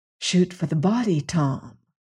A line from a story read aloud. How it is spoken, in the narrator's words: Karsten whispered to him